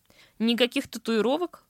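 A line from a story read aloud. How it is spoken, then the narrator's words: Skeptical snort. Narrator (Russian): хмыкнул Присцилла Морроу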